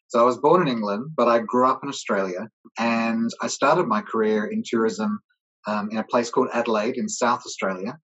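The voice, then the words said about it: Unusual accent for a British speaker. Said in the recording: “you might be able to tell because of my accent. You might think, no, that's a strange accent for a British guy.”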